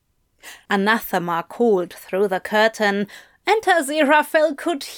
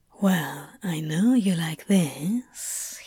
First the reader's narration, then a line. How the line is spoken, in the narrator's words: he whispered